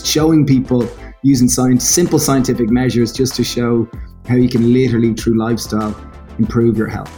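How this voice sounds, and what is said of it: Irish accent. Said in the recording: “how good would it be to have an Irish accent?”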